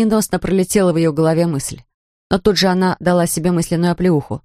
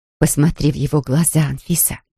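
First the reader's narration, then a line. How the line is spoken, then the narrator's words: Soft. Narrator (Russian): произнесла мягко подошедшая женщина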